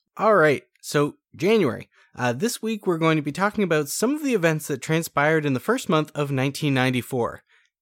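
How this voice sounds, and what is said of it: Raspy, sore-throated voice. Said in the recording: “I have a sore throat ... I do have a sore throat. So I apologize if I'm raspy ... a little bit of twang to your voice”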